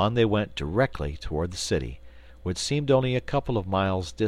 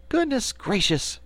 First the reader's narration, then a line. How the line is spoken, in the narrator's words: cried Dorothy